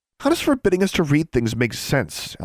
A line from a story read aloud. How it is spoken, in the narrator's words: Alexandra scoffed